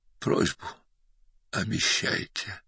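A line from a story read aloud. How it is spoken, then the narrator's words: Faint dying whisper. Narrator (Russian): едва слышно прошептал умирающий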